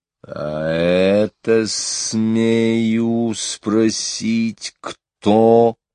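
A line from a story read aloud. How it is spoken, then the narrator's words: Quiet menacing voice. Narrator (Russian): произнес он тихим, устрашающим голосом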